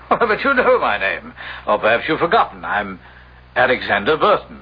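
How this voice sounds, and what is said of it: Convincing but fake stage English accent. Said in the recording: “you're not an Englishman. Oh, your accent sounds authentic, but it's a stage accent. And not the genuine article.”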